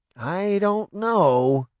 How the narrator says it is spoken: Cindy said hesitantly

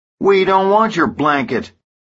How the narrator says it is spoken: Burdan yells at him

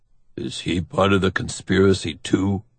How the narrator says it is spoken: Otto mutters

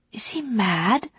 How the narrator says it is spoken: whispered Ali

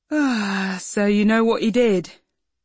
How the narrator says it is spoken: Hazel said, yawning again

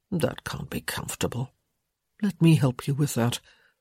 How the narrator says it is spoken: tisk-tisked, murmuring

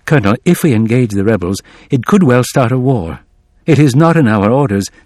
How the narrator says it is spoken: said quietly

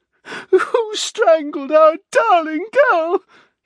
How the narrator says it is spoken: Leslie screeched

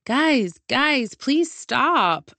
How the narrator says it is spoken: I begged

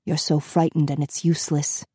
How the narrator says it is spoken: said the gray-haired man under his breath

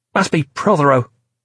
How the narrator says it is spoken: she snapped

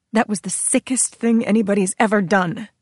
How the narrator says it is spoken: she snapped

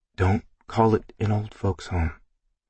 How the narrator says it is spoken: I mumbled to myself

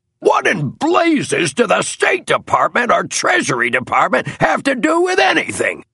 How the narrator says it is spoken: roared Major and Superintendent Moore

